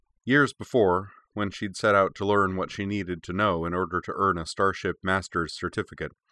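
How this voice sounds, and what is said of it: Usual voice. Nothing is said of it.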